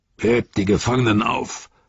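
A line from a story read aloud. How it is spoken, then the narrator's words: Roar. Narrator (German): brüllte Ugluk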